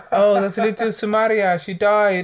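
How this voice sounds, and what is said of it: Put-on accent. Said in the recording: “We don't do accents. We don't do accents.”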